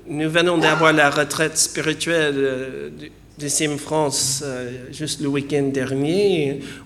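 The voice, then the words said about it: Foreign accent in French. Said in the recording (French): “le niveau de français a été augmenté, mais l'accent reste”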